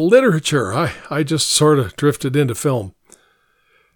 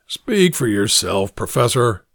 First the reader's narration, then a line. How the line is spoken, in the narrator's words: the lieutenant growled